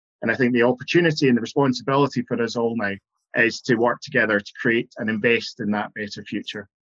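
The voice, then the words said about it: Scottish accent. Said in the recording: “this wonderful Scottish accent”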